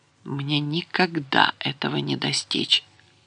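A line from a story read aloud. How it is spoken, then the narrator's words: Quiet whisper to himself. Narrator (Russian): тихо сам себе шепчет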